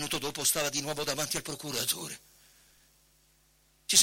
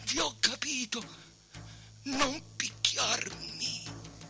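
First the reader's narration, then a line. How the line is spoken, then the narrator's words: Hoarse, breathless reply. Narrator (Italian): riprese fiato e rispose con voce rauca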